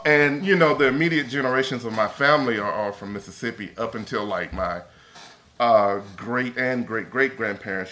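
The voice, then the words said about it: Mississippi Southern accent. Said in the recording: “I'm from Mississippi, as you probably can tell with my accent”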